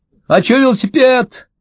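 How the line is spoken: Shouted from afar. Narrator (Russian): крикнул со двора Максимка

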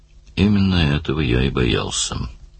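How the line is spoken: Gloomy. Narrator (Russian): мрачно заметил Даллас

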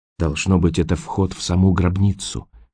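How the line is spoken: Whisper. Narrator (Russian): прошептал Роэн

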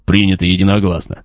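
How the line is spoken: Warrior's snort. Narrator (Russian): хмыкнул воин

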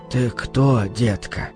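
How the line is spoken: Father's hoarse question. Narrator (Russian): сипло спросил отец

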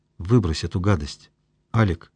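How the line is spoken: Quiet request. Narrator (Russian): тихо попросил Мишка

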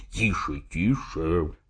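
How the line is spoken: Whisper in ear. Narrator (Russian): зашептал мне Смерчев и наклонился к моему уху

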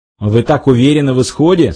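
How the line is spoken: Plain question. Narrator (Russian): спросил бармен

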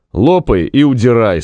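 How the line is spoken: Plain. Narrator (Russian): сказал Зев

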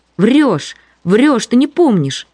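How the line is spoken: Shouted by several. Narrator (Russian): кричали ей

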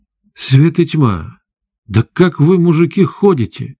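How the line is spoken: Sudden exclamation. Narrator (Russian): внезапно воскликнула она

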